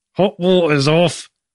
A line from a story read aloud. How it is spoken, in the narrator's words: said, through his teeth